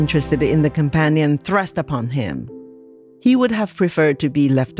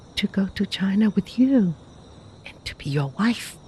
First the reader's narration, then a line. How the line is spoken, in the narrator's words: was the softly surprising reply